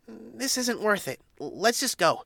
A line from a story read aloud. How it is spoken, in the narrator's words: Mischievous squeaked